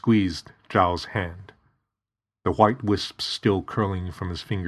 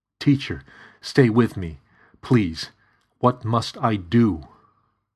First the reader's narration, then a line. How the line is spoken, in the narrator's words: Zhao choked on his own blood